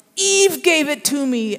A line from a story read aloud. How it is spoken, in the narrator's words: Adam blurted out